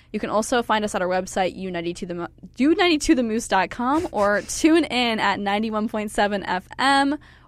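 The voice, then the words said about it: Talking very fast. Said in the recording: “I'm talking too fast for my own good”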